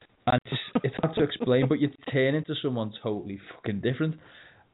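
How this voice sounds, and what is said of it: Scouse Liverpool accent. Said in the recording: “you become more Scouse when you leave the place you're from, especially Liverpool... your accent becomes thicker”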